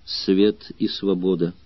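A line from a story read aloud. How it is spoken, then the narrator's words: Quiet, into ear. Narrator (Russian): Арторикс тихо сказал ему на ухо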